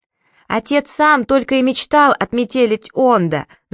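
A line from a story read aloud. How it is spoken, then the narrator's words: Yelling back. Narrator (Russian): завопил в ответ Сири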